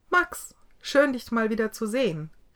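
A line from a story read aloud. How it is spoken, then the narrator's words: Calling out. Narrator (German): rief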